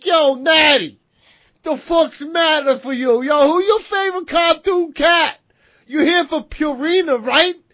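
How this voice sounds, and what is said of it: Thick Italian New York accent. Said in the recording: “you slipped in your deep ass Italian thick New York accent.”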